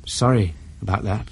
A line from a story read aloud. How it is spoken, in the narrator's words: she said faintly